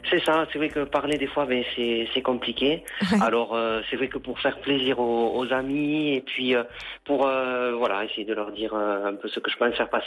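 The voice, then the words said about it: Warm regional French accent. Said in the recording (French): “Oh quel accent, ça fait du bien ça ... il suffit de vous entendre et tout à coup, pouf, on se prend un petit coup de chaud”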